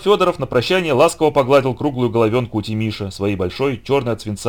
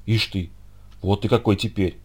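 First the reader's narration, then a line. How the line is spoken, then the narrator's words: Admiring whisper. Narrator (Russian): восхищенно шепнул Никита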